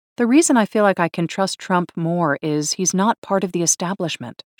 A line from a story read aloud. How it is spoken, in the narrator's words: she said